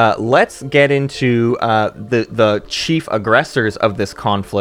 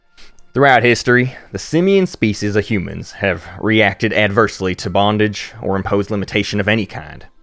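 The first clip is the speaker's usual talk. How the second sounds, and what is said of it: Put-on southern accent. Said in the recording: “I'm going to do this one in a southern accent because that's my Federation of Sol voice”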